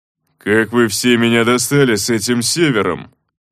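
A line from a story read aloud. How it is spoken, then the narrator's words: Sudden angry growl. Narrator (Russian): неожиданно зло рыкнул Кривонос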